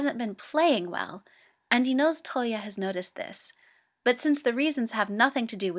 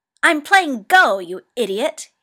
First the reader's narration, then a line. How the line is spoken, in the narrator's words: he snaps